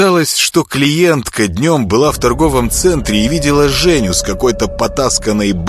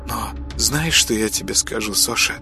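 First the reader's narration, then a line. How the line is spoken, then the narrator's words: Confiding whisper. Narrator (Russian): доверительно шептала подружка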